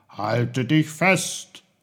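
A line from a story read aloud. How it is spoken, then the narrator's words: Called out. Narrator (German): rief er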